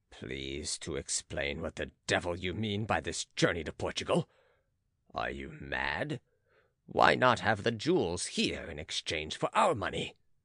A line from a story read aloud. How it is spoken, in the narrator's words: Manuel said angrily to Beausire